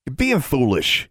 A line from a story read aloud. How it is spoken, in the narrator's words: he snapped